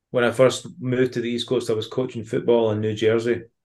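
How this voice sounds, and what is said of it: Scottish accent. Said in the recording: “having a Scottish accent”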